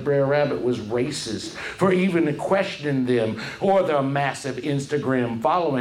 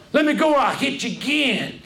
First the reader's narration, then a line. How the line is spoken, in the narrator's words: shouted Br'er Rabbit